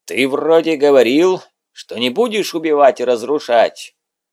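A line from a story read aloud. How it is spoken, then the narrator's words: Menacing question. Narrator (Russian): Грозным голосом осведомляется он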